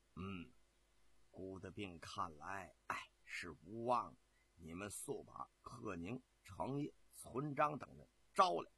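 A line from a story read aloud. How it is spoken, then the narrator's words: Soft reply. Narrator (Chinese): 曹夫人啊轻声地回答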